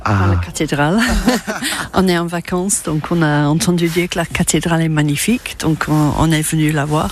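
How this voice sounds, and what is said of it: Strong British accent speaking French. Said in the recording (French): “un accent très british”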